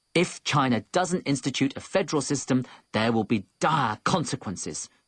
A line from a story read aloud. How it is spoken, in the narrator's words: shouted Fang Chaodi